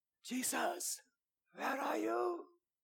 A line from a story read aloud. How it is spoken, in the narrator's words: shouting out quietly